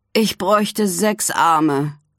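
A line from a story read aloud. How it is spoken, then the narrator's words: Groan. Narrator (German): stöhnt er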